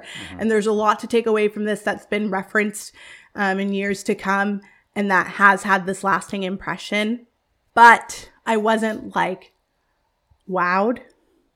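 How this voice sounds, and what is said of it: Hoarse, strained voice. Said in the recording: “I'm losing my voice right now”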